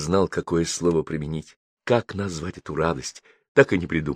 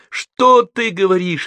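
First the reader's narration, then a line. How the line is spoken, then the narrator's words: Shouting. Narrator (Russian): опять закричал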